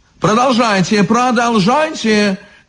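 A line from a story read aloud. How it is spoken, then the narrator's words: Shouted. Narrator (Russian): крикнул изящный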